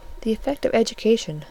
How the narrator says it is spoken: said Fanny gently

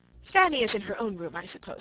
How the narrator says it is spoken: said he

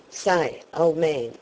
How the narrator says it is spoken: exclaimed Ned

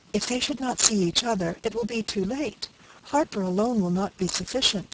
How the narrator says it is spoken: cried Francis in returning terror

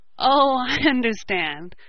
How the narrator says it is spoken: laughed Ned

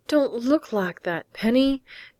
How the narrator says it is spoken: plead, his voice suddenly humble

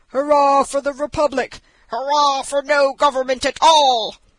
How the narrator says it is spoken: Such were the shouts

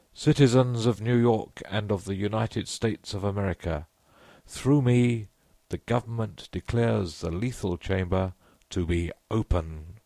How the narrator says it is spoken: he cried in a clear voice

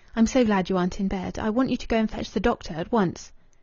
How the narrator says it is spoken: She replied, speaking quickly and eagerly

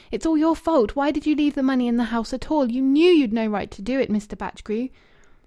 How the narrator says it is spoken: She wept with violence, and then through her tears, and half looking up, she cried out passionately

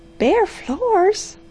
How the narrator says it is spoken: she cried

